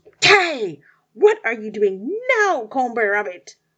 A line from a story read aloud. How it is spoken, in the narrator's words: Tiger roared